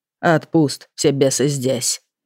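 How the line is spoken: Grumbling. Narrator (Russian): проворчал

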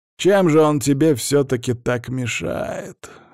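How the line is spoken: Thoughtful drawl. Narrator (Russian): вновь задумчиво протянул патриарх

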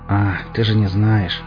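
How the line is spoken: Weary grimace. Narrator (Russian): устало поморщился я

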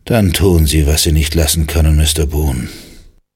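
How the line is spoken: Sighing reply. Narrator (German): Kelvin seufzte und antwortete

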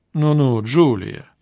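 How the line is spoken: Low voice. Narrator (Russian): вполголоса произнесла другая женщина

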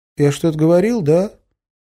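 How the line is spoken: Timid question. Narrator (Russian): робко спросил Кеша

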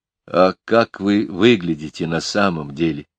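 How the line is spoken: Quiet question. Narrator (Russian): тихо спросил я

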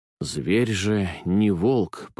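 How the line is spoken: Muttering. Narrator (Russian): пробормотал

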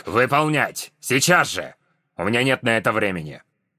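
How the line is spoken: Grandfather growling. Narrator (Russian): прорычал дедушка Вирион

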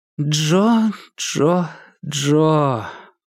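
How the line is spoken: Sad. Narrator (Russian): печально проговорила София

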